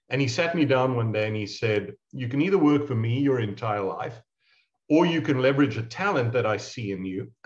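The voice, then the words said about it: South African accent. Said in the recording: “You hear by my accent, I'm not from around these parts. I'm South African of origin.”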